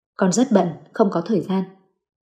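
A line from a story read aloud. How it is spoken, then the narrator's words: Cold reply. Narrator (Vietnamese): Chu Húc lạnh lùng đáp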